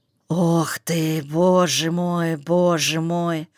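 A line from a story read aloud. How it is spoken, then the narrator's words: Sighing old woman, outside. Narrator (Russian): вздохнула за окном вторая старуха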